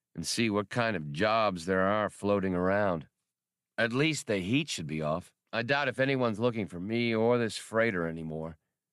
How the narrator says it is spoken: Han sighed

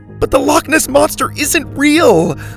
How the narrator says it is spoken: Lainey shouted

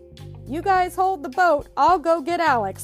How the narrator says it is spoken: Marty cried

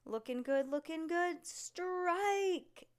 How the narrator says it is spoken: yelled the human bowling pin

